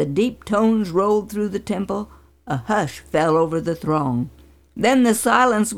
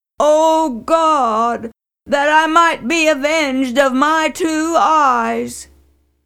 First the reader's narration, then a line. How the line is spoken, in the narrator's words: with a loud groan he cried out